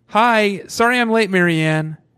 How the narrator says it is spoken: With a sheepish grin, she called out

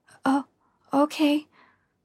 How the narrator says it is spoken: I stammered

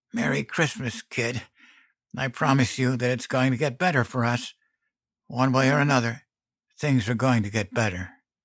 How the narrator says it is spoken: rasped

